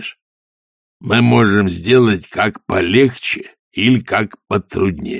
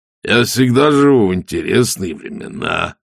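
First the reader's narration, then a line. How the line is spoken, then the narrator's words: Pleased voice. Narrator (Russian): произнес Коэн довольным голосом человека, прилагающего массу усилий, чтобы времена продолжали быть интересными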